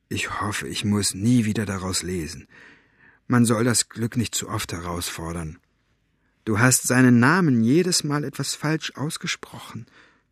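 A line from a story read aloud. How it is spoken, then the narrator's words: Whispered. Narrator (German): flüsterte Maggie ihm zu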